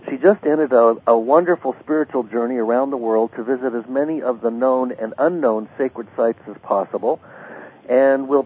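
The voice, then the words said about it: Voice with a slight cold. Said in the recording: “I've got a little bit of a cold”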